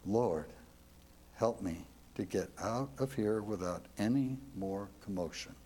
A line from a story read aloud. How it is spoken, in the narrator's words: Under her breath, she is saying